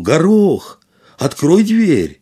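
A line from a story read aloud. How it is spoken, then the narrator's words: Shout. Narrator (Russian): он крикнул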